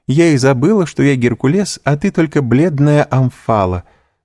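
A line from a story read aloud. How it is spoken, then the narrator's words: Laughing. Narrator (Russian): сказала, смеясь и жени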